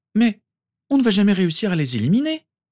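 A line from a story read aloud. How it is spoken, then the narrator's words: Exclaimed. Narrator (French): s'exclama Tonks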